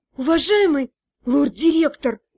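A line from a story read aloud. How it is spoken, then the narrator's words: Hoarse voice. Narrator (Russian): осипшим голосом начала я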